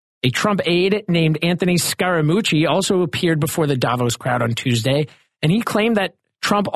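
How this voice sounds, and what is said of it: Usual voice. Nothing is said of it.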